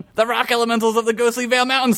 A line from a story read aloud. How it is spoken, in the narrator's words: Sweezers yelled